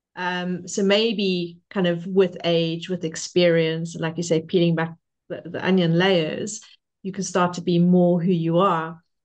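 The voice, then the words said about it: Speaker's own non-native accent. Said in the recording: “I don't mind that I've got an accent.”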